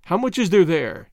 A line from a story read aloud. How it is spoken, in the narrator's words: he asked